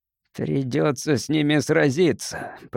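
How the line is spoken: Growling. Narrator (Russian): прорычал Гарсия

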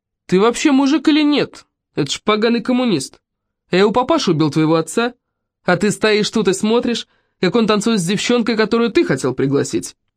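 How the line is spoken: Loud, provocative. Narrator (Russian): Микеле Салара, то ли из обиды за брата, то ли из желания устроить скандал, громко произнес

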